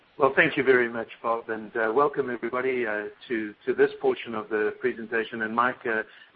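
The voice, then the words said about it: South African English accent. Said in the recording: “he doesn't have a typical Midwest accent. He was born and raised on the eastern seaboard of South Africa, though he's lived in the U.S. since 1994.”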